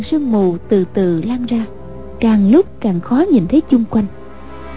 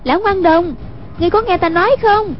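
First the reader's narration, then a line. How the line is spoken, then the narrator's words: Calling out. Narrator (Vietnamese): Hoàng Dung kêu lên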